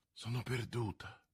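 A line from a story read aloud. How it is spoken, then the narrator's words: Murmuring. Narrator (Italian): mormorò la regina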